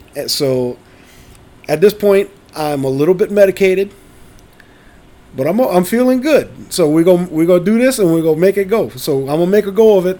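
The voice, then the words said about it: Hoarse, scratchy sick-sounding voice. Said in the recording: “my voice sounds a little weird, it's because I woke up and I was a little sick ... if you notice a little hoarse, a little scratchy, you know, something that is not quite right”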